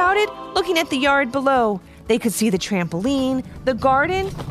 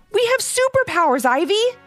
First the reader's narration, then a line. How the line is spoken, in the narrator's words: yelled